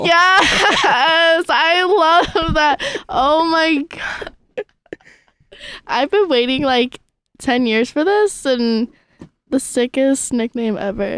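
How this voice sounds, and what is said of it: Screaming loudly with excitement. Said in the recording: “I'm screaming so loud into this microphone right now.”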